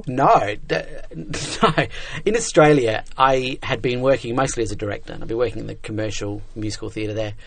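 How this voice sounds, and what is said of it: Non-New York accent. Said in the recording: “The accent we're hearing is not a New York accent”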